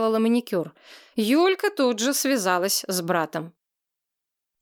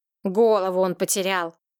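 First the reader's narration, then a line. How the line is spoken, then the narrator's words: Grumble. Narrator (Russian): проворчала Луконина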